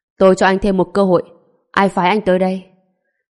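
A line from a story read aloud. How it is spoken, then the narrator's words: Cold indifferent speech. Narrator (Vietnamese): Trần Bình lạnh lùng nói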